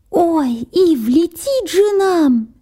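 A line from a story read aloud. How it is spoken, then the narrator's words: Squeak. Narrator (Russian): пискнул Харви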